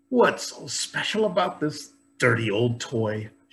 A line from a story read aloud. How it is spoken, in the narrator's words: she grumbled